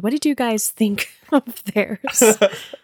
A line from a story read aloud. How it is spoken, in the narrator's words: I giggled